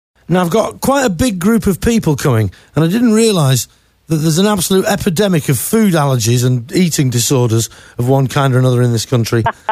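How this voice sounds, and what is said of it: Non-local foreign accent. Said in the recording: “hear from my voice that I'm not from around these parts”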